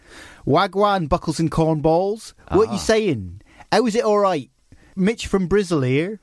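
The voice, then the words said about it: Inaccurate put-on Bristolian accent. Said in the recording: “Maybe I should do a Bristolian accent and make it more accurate... this is not an accurate Bristol accent, but I'm doing my best”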